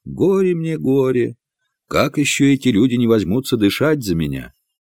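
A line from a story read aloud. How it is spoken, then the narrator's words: Resigned sighing mutter. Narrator (Russian): с покорным вздохом пробормотал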